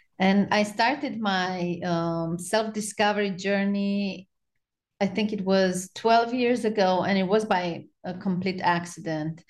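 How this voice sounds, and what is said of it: Romanian-accented English. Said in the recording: “I have an accent. I was born in Romania and I lived in Romania till 5 years ago.”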